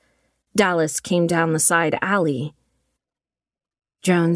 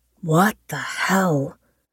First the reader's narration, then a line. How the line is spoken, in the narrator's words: Graves muttered over the comm